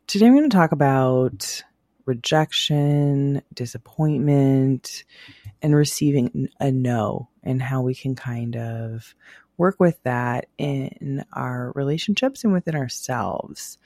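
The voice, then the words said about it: Raspy, quiet voice. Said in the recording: “I'm going to be a little bit extra raspy and sexy today because I'm recovering from a virus. So, we're going to do that quiet voice.”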